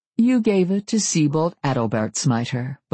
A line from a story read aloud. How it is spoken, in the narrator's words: Beauclair said, his voice cool